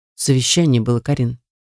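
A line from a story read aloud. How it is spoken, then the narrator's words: Calm. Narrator (Russian): спокойно произносит Рома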